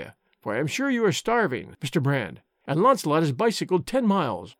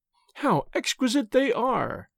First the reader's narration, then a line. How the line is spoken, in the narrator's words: cried Miss Clare